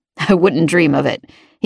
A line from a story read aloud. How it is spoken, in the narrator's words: he said with a chuckle